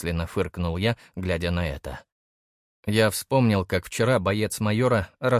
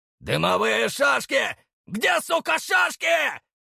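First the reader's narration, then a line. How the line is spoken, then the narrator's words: Shouting. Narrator (Russian): кричал Стафеев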